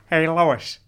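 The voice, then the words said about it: Cartoon character voice impression. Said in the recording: “Could do a good Peter from Family Guy ... That was actually really good.”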